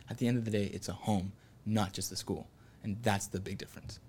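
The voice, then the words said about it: Smooth radio announcer voice. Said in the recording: “you got the radio voice going”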